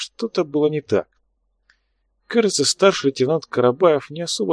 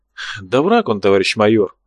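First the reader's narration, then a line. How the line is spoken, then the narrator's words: Sighing. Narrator (Russian): вздохнул Чернявый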